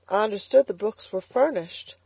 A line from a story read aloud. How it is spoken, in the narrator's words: faltered Elnora